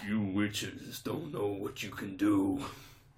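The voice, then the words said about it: Vin Diesel impression, not very good. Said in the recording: “It's not a great Vin Diesel impression.”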